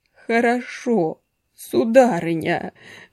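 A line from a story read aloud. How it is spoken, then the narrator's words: Moaned. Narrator (Russian): простонал Кистунов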